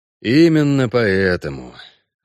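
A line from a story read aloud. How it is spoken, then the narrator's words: Sighing. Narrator (Russian): вздохнул Геральт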